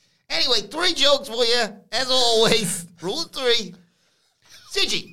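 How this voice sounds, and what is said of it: Usual voice. Nothing is said of it.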